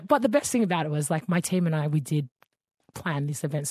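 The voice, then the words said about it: Tired-sounding voice. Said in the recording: “I'm so tired and my voice is a reflection of it”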